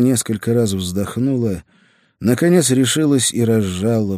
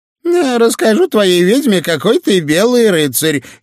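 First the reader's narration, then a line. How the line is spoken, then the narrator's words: Preacher giggling. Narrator (Russian): хихикнул проповедник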